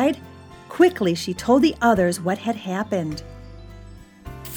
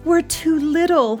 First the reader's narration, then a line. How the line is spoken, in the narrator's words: he moaned